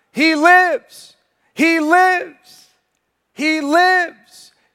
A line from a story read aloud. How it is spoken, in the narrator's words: they shouted